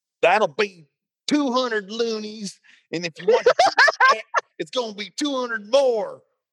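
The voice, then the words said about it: Impression of an American dentist. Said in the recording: “my impression of an American dentist”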